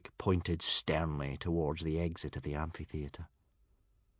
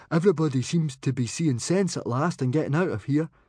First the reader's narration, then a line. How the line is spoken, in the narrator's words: he said eagerly